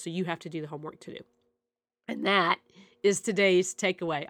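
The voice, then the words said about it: Rough, unwell-sounding voice. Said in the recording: “I apologize for my voice. I know it sounds terrible”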